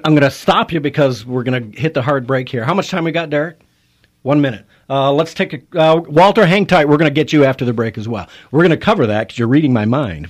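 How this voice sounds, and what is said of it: Raised, fired-up voice. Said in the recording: “raising my voice ... I get fired up and passionate”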